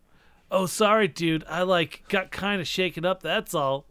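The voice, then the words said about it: Surfer accent. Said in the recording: “said one of the cats with a surfer accent.”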